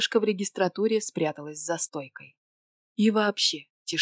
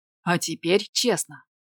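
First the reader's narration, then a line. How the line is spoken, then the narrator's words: Loud, frightening bark. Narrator (Russian): рявкнул он так, что мое сердце от страха чуть из груди не выскочило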